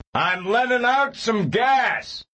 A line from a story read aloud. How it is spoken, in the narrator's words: he shouted to Serafina Pekala